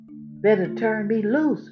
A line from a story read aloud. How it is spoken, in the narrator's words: Rabbit hollered, getting scared now